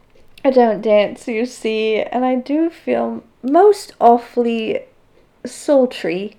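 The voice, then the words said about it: Attempted English accent. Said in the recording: “he said in an English accent ... I just don't know if I can do an English accent ... I'm making this boy sound like he's Oliver from Oliver Twist”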